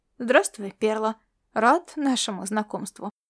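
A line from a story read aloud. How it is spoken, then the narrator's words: Soft. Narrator (Russian): мягко проговорил он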